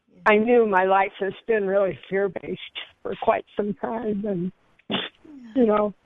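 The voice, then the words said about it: Emotional, choked-up voice. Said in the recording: “sorry, I'm getting emotional.”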